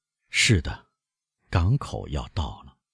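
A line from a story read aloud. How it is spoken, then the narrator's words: Melancholy low murmur. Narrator (Chinese): 游客用难以形容的忧郁声调喃喃地说，然后他低声的添上说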